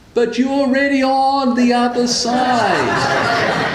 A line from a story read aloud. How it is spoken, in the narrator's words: shouted back